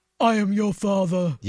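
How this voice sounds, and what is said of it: Darth Vader impression. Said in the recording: “my impression.”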